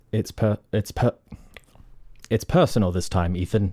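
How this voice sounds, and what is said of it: Put-on British accent. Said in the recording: “So you got to do a British accent.”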